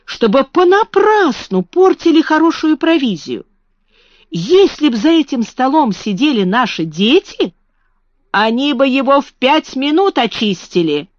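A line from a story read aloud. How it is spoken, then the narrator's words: Exclaimed. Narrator (Russian): воскликнула Марта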